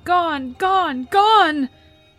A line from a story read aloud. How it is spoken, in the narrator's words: the ghouls cried